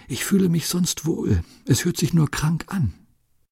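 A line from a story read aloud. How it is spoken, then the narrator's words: Barely audible whisper. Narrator (German): Sie können gerade noch flüstern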